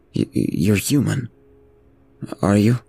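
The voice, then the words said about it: Low voice. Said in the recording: “The man replied to him in a low voice.”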